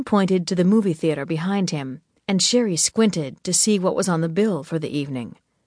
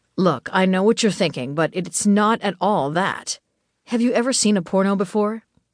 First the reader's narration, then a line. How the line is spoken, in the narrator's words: Tim asked